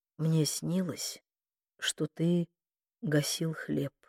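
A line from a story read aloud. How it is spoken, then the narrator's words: Sleepy voice. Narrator (Russian): Проснувшись на рассвете, Мануэла сонным голосом проговорила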